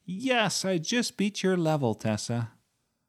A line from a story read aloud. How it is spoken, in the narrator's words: Sebastian shouted